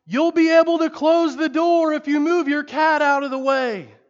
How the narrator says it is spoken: the evangelist yelled as he hastily retreated

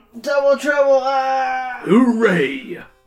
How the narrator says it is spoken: the king shouts

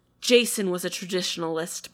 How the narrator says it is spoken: Penelope said, her voice heavy

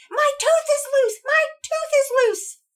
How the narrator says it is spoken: she yelled out

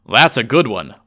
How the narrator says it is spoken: laughed the inspector harshly

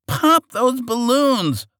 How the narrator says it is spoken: shouted to his men

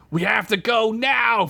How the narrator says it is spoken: Fred yelled

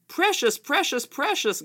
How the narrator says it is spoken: Gollum cried

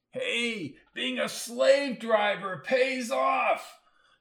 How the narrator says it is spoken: shouted Arnie from somewhere in the bleachers

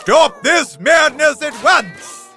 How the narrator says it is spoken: bellowed the Lord

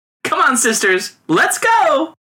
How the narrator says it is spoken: cried one among them

